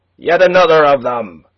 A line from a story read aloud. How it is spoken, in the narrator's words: A voice in the crowd, some 20 paces perhaps, was raised to shout